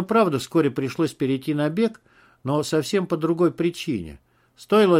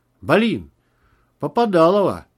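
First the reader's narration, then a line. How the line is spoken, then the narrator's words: Muffled shout. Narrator (Russian): приглушенно выкрикнул Макс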